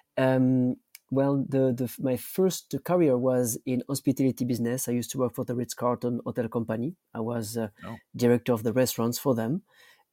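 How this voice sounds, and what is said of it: Thick French accent. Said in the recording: “I was born in France ... my accent doesn't show, actually. It's still very thick.”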